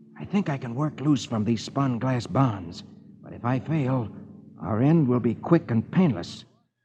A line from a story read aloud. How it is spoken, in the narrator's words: Flash whispers to Dale